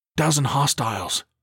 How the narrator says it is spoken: he whispered

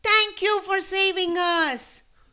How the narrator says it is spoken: The little penguins exclaimed

